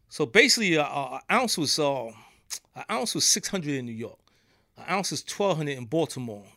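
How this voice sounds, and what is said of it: New York accent. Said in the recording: “my accent. I'm from New York”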